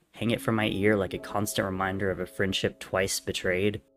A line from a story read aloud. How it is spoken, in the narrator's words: Techno scoffed